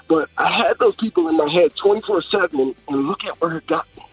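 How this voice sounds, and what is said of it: Choked up, emotional voice. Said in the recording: “excuse me, I'm getting choked up here”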